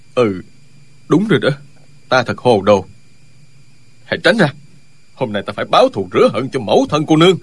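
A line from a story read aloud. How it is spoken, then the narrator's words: Stunned muttering. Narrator (Vietnamese): Ân Lê Đình sững sờ, lẩm bẩm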